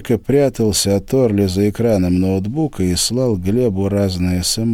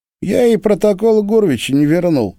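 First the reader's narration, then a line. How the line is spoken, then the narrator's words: Giggling. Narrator (Russian): хихикнул Борька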